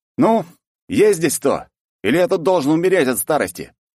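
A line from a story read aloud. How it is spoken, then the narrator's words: Loud question. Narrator (Russian): Громко спрашиваю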